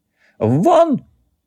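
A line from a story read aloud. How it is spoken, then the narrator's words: Shrill scream. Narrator (Russian): визгливо закричал Табулин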